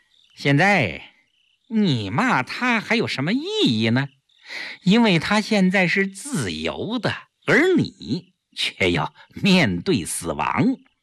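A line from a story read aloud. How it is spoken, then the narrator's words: Smug smiling. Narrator (Chinese): 顾青自负地笑笑，对萧啸天说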